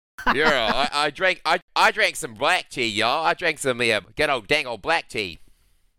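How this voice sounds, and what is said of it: Put-on Southern American accent. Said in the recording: “you should try to do an American accent... Oh, you were doing the accent.”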